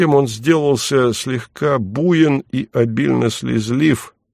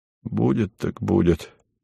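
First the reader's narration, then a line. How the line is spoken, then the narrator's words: Listless mutter. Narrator (Russian): вяло пробормотал он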